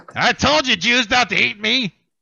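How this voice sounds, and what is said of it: Imitates another person's voice. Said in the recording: “my horrible Gilbert Gottfried impersonation.”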